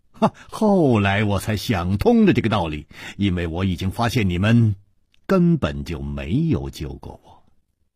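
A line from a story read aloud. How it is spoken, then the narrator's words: Smiling, continuing. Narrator (Chinese): 楚留香笑了笑接着说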